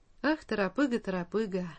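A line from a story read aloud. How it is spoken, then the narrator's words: Sighing with a chuckle. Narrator (Russian): вздохнул дедушка с усмешкой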